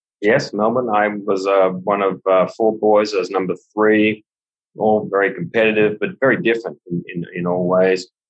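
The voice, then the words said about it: Australian accent. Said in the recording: “the accent is such that you came from Australia”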